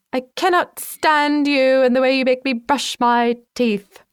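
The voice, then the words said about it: Put-on British accent, child's voice. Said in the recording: “my six-year-old sort of has like a British accent ... If you're British, please feel free to make fun of that.”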